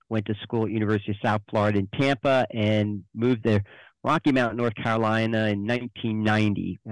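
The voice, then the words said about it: New Jersey accent. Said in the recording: “as you can tell from the accent, I'm not born and raised here. Actually, the accent comes from New Jersey.”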